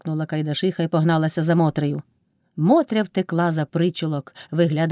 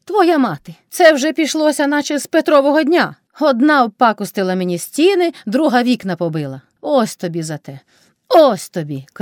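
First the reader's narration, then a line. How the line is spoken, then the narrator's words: Shout. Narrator (Ukrainian): крикнула Мотря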